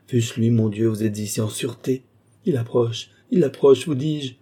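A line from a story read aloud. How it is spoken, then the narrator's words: Terrified, crushed cry. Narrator (French): s'écria Lorenza, terrifiée, anéantie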